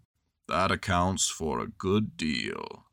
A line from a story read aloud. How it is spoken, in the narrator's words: said Eeyore gloomily